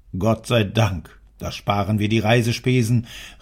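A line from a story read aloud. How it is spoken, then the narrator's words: Called out. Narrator (German): rief der Herr Preuß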